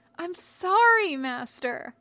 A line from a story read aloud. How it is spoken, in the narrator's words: Anakin wailed as they ran pell-mell